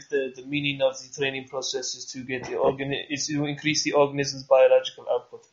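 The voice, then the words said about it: Put-on broken Russian accent. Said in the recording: “You have to say it in that cool, like, broken Russian ... the accent's key, for sure.”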